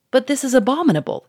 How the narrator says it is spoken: cried

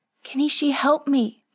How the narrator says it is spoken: Kazuko gasped

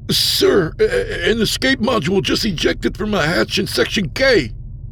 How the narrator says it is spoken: Aldo sputtered

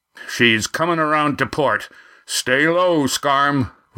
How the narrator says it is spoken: Roaring Jack shouted

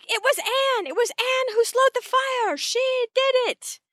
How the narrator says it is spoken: Jerry screams back

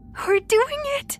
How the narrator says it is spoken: she said excitedly

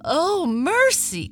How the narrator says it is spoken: cried the mother

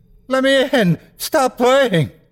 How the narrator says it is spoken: He's screaming

